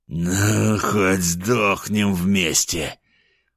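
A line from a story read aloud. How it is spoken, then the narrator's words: Choking bloody rasp. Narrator (Russian): прохрипел он, захлебываясь в крови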